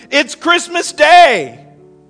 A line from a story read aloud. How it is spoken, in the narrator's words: Then a familiar voice yelled